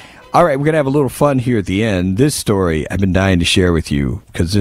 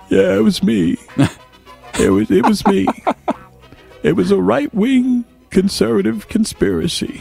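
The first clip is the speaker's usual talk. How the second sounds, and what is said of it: Bill Clinton impression, not very good. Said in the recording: “I can't do that voice very well.”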